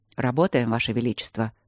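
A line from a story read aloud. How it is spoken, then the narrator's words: Gloomy. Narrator (Russian): мрачно сказал Свенсен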